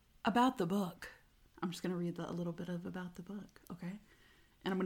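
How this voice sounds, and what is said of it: Usual voice. Nothing is said of it.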